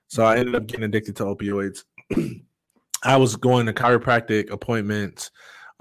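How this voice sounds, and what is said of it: Voice fading, going hoarse. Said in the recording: “apparently my voice is going out”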